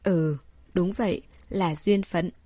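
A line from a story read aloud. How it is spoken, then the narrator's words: Sighing. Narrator (Vietnamese): Đường Hinh thầm thở dài đáp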